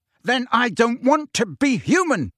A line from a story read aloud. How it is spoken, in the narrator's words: Harry roared